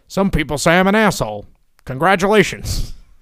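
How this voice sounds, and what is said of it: Poor imitation of another person's voice. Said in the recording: “That was your Vince impression? ... I couldn't do it good. I don't know what I was doing. It was like Jesse Ventura and Vince ... It was terrible.”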